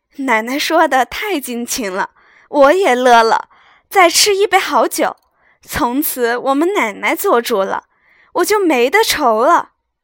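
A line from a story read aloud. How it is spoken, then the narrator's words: Laughing old woman. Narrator (Chinese): 赵嬷嬷笑道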